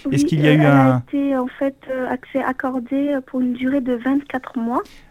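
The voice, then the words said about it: Noticeable pleasant accent. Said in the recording (French): “vous avez un très joli accent.”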